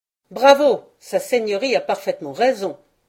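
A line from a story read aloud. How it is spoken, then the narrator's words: Group shouting in chorus. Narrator (French): cria en chœur toute la bande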